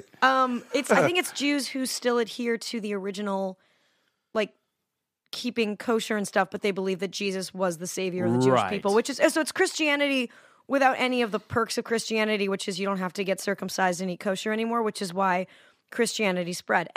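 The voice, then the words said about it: Slightly hoarse voice. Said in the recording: “I'm a little hoarse today”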